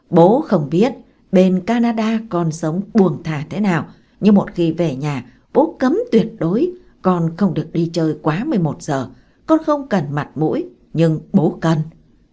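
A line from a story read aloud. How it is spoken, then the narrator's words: Stern father's voice. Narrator (Vietnamese): bố nghiêm giọng nói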